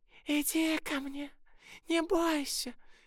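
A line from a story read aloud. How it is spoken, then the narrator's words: Hoarse old woman's croak. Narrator (Russian): хрипела старая ведьма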